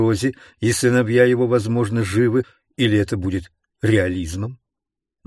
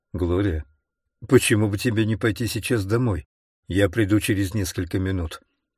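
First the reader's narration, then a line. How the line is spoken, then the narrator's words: Quiet, tense. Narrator (Russian): Живот у него свело, и он тихо сказал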